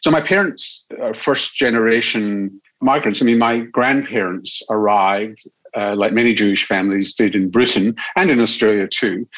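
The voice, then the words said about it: Strong Scottish accent. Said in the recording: “I still speak with a very strong Scottish accent”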